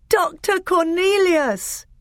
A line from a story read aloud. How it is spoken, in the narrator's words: cried Caspian with joy